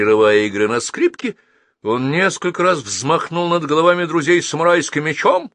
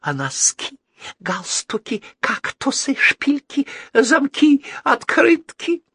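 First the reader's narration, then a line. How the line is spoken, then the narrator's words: Ingratiating, tender whisper. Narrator (Russian): вкрадчиво и ласково шептал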